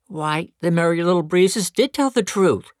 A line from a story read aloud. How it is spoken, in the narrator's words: exclaimed